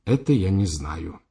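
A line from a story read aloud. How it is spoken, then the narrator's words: Sighing. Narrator (Russian): вздохнул Симыч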